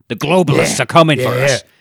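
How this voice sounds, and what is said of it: Gruff imitated ranting voice. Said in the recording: “It's the Alex Jones ... It's that gruff. Gruff voice”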